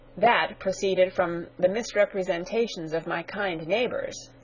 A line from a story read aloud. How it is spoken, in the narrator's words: said Mr